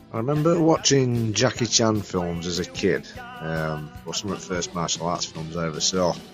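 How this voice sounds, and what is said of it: Strong regional accent, hard to understand. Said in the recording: “if ever there was subtitles required for a podcast ... then you need them ... any difficulty understanding ... accent. It's from the same neck of the woods from me”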